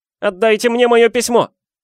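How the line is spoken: Yelled. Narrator (Russian): заорал он

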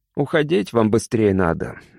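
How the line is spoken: Gloomy. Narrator (Russian): мрачно сказал Колясик

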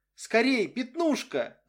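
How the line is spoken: Child shouting. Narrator (Russian): закричал маленький Уилли

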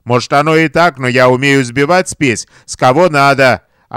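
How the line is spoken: Barked shout. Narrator (Russian): гаркнул своей шайке

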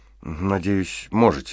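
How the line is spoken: Uncertain. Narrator (Russian): неуверенно произнесла Вал

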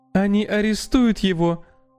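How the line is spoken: Sobbing. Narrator (Russian): всхлипнула она

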